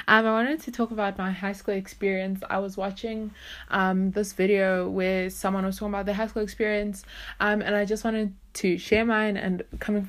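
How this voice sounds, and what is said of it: Breathless, out-of-breath speaking. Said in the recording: “I'm out of breath.”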